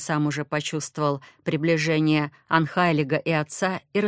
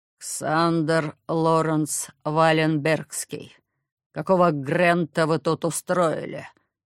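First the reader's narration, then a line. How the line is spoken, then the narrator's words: Cold words through teeth. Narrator (Russian): Холодно процедил отец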